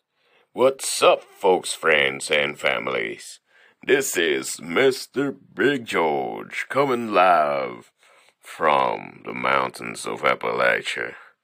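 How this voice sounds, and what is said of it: Big, crazy, scary-sounding voice. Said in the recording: “I have one crazy and big old scary voice”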